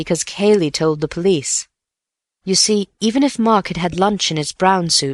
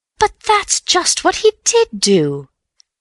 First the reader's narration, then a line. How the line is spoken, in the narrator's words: cried Bill triumphantly